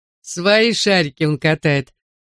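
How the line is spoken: Proud. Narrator (Russian): подхватил гордо

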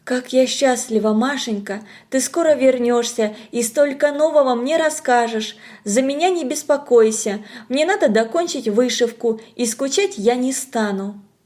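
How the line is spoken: Whispering. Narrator (Russian): Подруга зашептала

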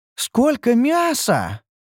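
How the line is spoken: Delighted exclamation. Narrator (Russian): восторженно воскликнула Ньюру

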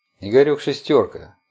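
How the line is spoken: Thoughtful voice through headphones. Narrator (Russian): задумчиво известили наушники голосом лингвиста Алана

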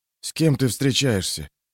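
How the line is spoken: Whispered question. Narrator (Russian): шепотом спросил Юранд

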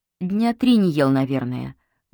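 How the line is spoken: Sighing. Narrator (Russian): вздохнув, ответила Вика

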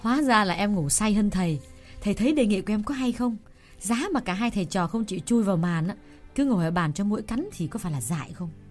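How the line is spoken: Smiling woman. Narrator (Vietnamese): Cô mỉm cười, rồi nói

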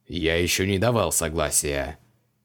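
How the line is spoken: Grumbling. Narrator (Russian): пробурчал Креол

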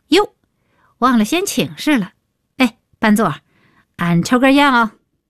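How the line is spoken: Loud, prompt. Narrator (Chinese): 李伟立刻高声道

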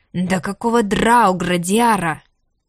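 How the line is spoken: Loud roaring growl. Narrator (Russian): зарычал дракон так громко

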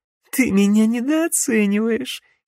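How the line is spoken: Giggling young witch. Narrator (Russian): хихикнула юная ведьма

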